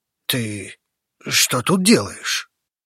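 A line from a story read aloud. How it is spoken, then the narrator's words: Hoarse, stunned question. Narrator (Russian): Хрипло спросил ошарашенный Алексей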